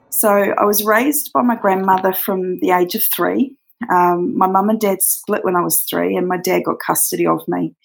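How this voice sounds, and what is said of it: Australian accent. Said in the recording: “from Australia. She has a beautiful accent that we were both very hypnotized by.”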